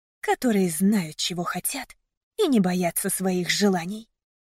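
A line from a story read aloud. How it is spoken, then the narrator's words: Defiant whisper. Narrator (Russian): прошептала я с вызовом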